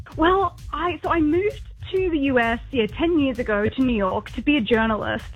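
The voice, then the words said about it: Australian accent. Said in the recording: “I hint an Australian accent ... I'm as Aussie as it gets ... You won't hear an American accent on me, never.”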